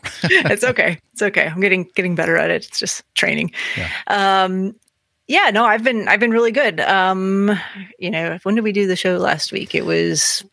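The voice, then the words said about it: Scratchy, strained voice. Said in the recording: “losing my voice ... it's really kind of causing my voice to feel scratchy at times”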